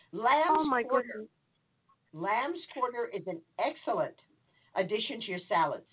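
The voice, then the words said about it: Loud, almost shouting voice. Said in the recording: “If I'm talking louder, can you hear me now? ... Okay, I'll talk loud. ... I'm really talking, almost screaming now”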